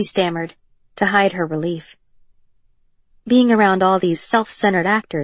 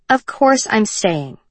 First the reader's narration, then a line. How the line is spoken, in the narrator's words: Ryland said firmly